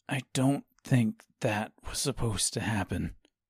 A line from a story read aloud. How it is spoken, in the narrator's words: said Joseph quietly, nervously